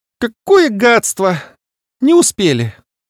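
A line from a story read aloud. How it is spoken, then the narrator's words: Offended squeak. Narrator (Russian): с обидой в голосе пропищал приземлившийся мне на грудь Маус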